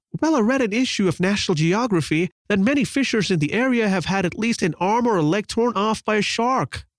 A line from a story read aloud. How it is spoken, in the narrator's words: exclaimed a tiny red-haired lady fearfully